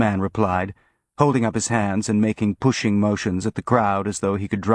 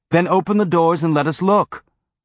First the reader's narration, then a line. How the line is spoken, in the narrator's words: the woman shouted again